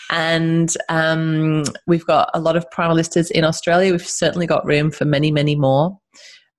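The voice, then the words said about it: Funny accent, not sounding Australian. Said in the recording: “I'm based in Australia, even though I've got this funny accent.”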